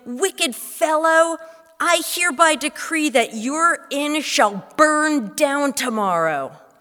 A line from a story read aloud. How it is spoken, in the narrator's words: Full of wrath, the rabbi cried